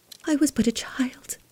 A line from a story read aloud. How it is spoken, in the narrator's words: she whispered